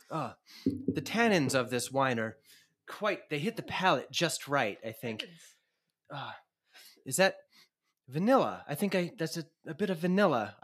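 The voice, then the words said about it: Put-on accent, wine-taster style. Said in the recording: “I know I'm doing the same accent you are.”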